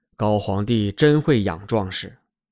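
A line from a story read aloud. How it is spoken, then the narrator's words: Sighing. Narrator (Chinese): 燕王叹息地说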